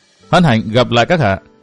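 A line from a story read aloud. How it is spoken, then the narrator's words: Cold. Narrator (Vietnamese): Văn Thiên Hạo nói giọng lạnh lùng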